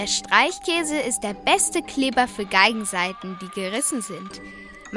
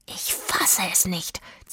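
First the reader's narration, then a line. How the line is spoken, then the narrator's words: Hissed. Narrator (German): zischte sie ihren Freunden zu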